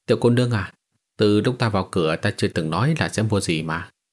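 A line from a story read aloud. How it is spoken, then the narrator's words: Sighing. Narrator (Vietnamese): Hắn thở dài nói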